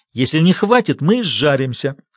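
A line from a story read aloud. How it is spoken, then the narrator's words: Irritated, curt. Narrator (Russian): раздраженно бросил Большой Джим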